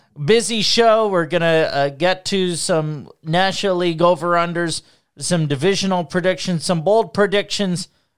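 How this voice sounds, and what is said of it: Strained voice, not sounding normal. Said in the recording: “I apologize for my voice sounding the way it does. It normally doesn't. But I've been rallying”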